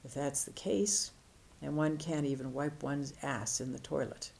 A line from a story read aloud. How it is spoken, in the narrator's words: The master replied calmly